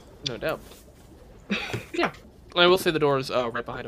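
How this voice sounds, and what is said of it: Usual voice. Nothing is said of it.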